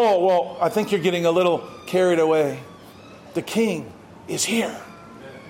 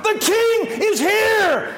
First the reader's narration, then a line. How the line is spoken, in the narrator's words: the people shout